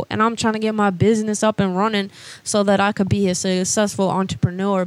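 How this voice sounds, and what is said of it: Georgia-raised American accent. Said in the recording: “I love your accent. ... I grew up in Georgia”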